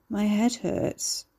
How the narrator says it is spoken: Carrie mumbled

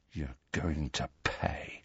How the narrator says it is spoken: said Malfoy, in a voice barely louder than a whisper

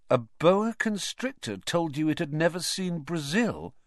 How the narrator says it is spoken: Ron repeated faintly

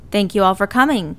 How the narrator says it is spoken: Lachlan starts off by projecting loudly

